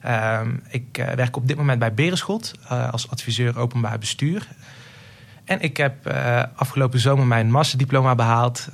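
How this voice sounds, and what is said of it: Southern Dutch regional accent. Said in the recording (Dutch): “zoals dus je aan mijn accent hoort, kom ik uit het zuiden”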